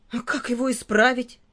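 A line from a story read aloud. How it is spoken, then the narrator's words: Sobbing question. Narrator (Russian): спросил всхлипывая Филька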